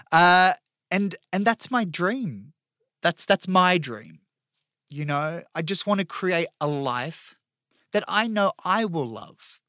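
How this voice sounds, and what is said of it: Choked-up, emotional voice. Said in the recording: “I'm getting a bit choked up here”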